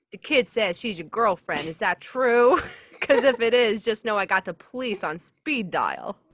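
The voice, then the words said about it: Heavy Boston accent. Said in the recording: “spoke up in a heavy Boston accent. ... should I try this accent?”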